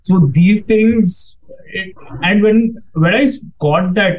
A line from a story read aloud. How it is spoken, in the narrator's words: I cried